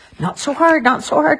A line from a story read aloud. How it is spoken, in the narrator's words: cried Cecily